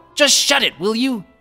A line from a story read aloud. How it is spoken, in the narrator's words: Kotake screamed